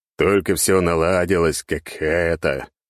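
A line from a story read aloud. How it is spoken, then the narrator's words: Weary sigh. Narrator (Russian): Я устало вздохнул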